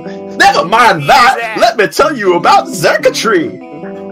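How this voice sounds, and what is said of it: Yelling loudly. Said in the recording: “Why are you yelling at me?”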